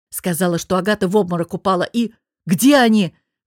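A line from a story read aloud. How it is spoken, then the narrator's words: Roared. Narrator (Russian): взревел я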